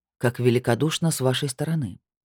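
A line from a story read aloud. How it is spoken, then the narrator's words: Cold reply. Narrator (Russian): холодно отозвался инспектор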